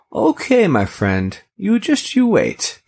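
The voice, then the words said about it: Clumsy put-on accent. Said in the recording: “Don't ever use that accent again. Ever. ... Was that an accent? ... It was an attempt.”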